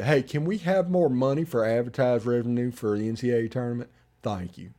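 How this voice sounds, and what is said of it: Poor Droopy Dog impression. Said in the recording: “terrible droopy dog impression... it was pretty awful”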